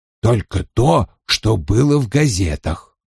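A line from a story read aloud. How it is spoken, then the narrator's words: Muttering. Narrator (Russian): пробормотал Вульф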